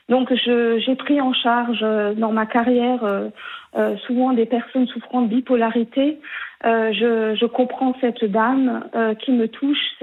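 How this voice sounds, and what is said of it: Regional Alsatian French accent. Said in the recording (French): “Je vous appelle du Haut-Rhin, d'Alsace. ... Oui, on entend votre accent.”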